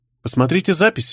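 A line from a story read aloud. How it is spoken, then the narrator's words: Calm suggestion. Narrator (Russian): спокойно предложила Дагни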